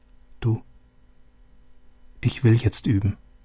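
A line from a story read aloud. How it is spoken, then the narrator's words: Quiet. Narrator (German): Leise sagte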